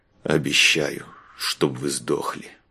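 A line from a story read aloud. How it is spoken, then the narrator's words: Grumbling. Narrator (Russian): Буркнул он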